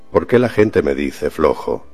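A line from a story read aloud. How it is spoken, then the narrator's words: Murmur. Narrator (Spanish): murmuró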